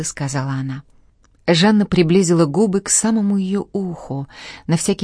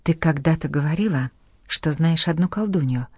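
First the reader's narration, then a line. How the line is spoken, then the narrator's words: Lady whispering. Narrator (Russian): прошептала госпожа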